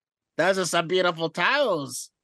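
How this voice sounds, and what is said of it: Imitates another person's voice. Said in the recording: “Do the other part of the Matt Riddle impersonation”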